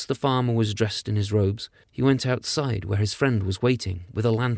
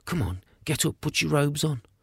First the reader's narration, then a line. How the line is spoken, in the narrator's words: whispered